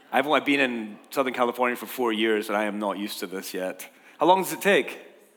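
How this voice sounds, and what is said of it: Hoarse, froggy voice. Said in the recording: “I've got a frog in my throat. It's the humidity or something.”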